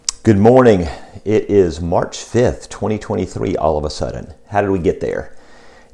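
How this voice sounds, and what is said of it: Hoarse, fading voice. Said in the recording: “my voice is a little bit hoarse ... my fading voice ... a hoarse voice”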